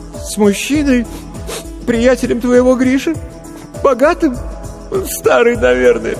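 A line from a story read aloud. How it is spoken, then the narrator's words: Sobbing. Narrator (Russian): всхлипнула Маша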